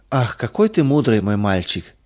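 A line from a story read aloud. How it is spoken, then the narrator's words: Laughing. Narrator (Russian): рассмеялась Мария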